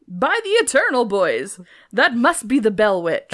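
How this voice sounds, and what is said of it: Put-on accent. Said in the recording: “I don't know why I said it in that accent.”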